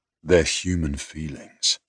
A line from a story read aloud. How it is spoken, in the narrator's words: I said gently